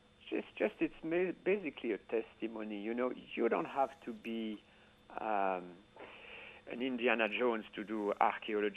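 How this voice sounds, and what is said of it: Heavy foreign accent. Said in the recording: “my heavily accented foreign accent ... Well, it's beautiful.”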